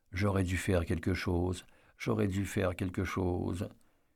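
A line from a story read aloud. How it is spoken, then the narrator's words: Soft prayer-like murmur. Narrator (French): elle murmurait tout doucement, comme dans une prière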